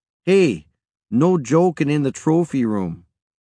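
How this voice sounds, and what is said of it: Thick Canadian accent. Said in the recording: “In her thick Canadian accent”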